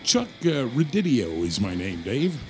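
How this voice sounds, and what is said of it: Radio announcer voice. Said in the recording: “you got the radio voice going, don't you?”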